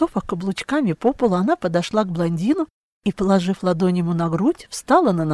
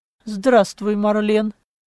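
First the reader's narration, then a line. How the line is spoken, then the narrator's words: Somewhat dry. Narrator (Russian): Несколько сухо ответил Клаус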